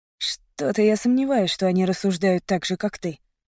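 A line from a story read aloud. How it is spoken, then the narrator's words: Unconvinced mutter. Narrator (Russian): пробормотал парень, которого доводы Трэвиса совершенно не убедили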